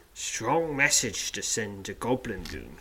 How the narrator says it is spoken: says, in a low voice

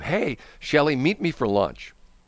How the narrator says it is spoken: said

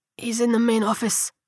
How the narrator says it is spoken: the man whispered

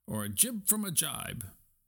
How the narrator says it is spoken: cried Stuart

